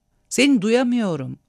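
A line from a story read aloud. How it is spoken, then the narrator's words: Shouted. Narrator (Turkish): diye bağırdı Kismine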